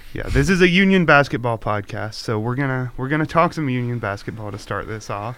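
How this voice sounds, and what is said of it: Sick, weird-sounding voice. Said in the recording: “my voice sounds weird throughout this podcast. I've been sick the last couple of days”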